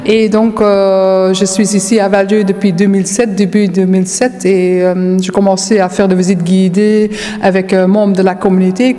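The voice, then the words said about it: Dutch accent speaking French. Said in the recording (French): “comme vous l'avez déjà bien entendu, j'ai quand même un accent. Donc, je suis une Hollandaise d'origine.”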